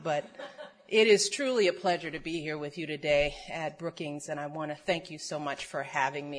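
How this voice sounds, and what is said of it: Voice affected by a cold. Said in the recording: “I have a cold, so if I start to choke before you, don't worry.”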